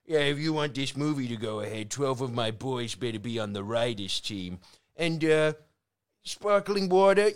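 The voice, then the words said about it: Put-on accent. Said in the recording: “A good accent.”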